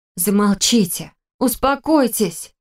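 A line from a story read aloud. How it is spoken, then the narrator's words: Pleading cry drowned out. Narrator (Russian): взмолилась я, но мой возглас потонул в общем гамме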